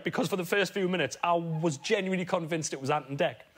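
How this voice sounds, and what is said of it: Geordie accent. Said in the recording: “they heard my accent and thought, he's a Geordie”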